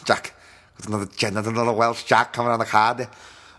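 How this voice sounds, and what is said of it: Poor put-on Welsh accent. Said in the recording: “But that was terrible. I love my Welsh brothers and sisters. I'm sorry. That was a terrible impression.”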